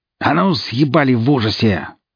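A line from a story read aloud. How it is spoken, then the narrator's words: Growling young woman. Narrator (Russian): зарычала девушка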